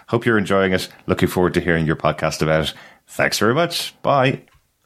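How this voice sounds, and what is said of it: Speaks with a noticeable accent. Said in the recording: “he knows I'm a sucker for an accent”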